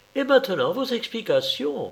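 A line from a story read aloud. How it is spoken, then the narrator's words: Exclaimed. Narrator (French): s'écria celle-ci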